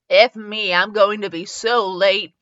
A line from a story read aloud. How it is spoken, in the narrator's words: grumbling to itself